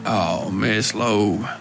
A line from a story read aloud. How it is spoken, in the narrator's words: he grumbled